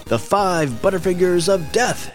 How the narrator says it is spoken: he yelled

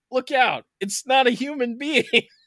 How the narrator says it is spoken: he cried out

